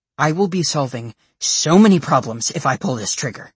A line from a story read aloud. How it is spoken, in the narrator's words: she growls